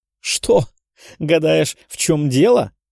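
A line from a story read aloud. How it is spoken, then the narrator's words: Loud laughter. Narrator (Russian): Графиня расхохоталась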